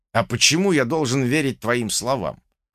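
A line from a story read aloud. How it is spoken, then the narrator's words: Skeptical snort. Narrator (Russian): хмыкнул я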